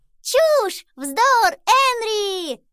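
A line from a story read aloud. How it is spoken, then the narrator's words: Delighted group shouting. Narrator (Russian): восторженно кричали они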